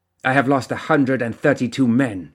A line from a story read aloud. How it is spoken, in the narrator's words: growled